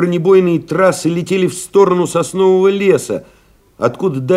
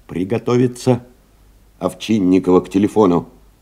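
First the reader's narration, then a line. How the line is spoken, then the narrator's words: Hoarse tenor, calling repeatedly. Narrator (Russian): Телефонист Колокольчиков беспрерывно, осиплым тенорком вызывал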